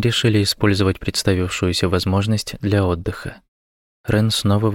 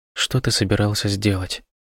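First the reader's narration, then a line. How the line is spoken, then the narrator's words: Whisper. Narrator (Russian): прошептала она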